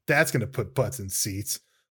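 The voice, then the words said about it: Imitated voice, disgusted tone. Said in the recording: “do my impersonation of that? ... it sounds so disgusted with the idea of it.”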